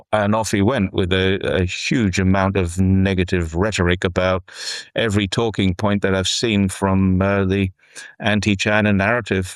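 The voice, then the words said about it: Australian accent. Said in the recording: “whereabouts you from, mate? Because I've got the accent.”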